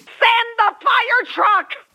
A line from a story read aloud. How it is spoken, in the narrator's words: the hysterical voice screamed